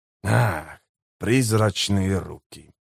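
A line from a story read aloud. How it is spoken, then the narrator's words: Muttering. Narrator (Russian): пробормотал Леоман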